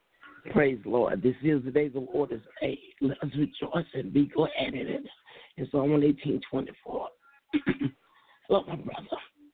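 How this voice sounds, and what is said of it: Slightly hoarse voice. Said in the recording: “You sound kind of hoarse. ... Yes, I'm a little hoarse.”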